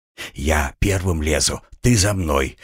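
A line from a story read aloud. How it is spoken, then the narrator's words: Whispered. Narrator (Russian): прошептал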